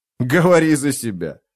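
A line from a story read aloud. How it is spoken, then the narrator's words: Laughing. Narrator (Russian): засмеялся спиннок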